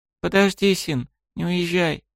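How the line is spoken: Sudden quiet words. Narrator (Russian): вдруг тихо произнесла

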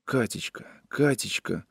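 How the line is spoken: Pleading whisper. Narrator (Russian): шептал он умоляюще

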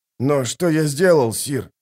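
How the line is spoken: Trembling question. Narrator (Russian): дрожащим голосом спросил Нефут

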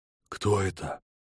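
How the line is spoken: Whispering onlookers. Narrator (Russian): зашептали стоявшие за кругом танцующих

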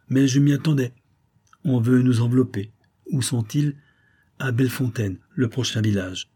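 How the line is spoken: Calm reply. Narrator (French): répondit le cavalier d'un ton calme

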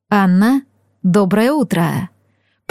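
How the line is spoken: Velvety voice. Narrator (Russian): произнес он бархатным голосом

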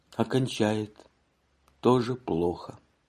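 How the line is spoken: Rather glum. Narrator (Russian): сказал довольно уныло

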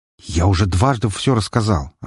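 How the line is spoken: Irritated reply. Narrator (Russian): раздраженно ответил

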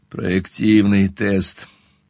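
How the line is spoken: Muffled reply. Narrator (Russian): глухо отозвался я

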